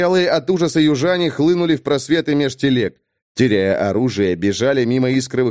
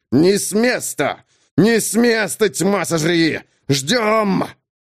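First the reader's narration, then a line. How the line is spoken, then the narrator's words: Officers speaking through teeth. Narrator (Russian): офицеры цедили сквозь зубы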